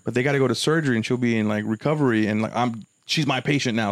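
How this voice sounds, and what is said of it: Breathless, rushed speech. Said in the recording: “Why am I running out of breath? ... I don't know why I gotta get every last word out.”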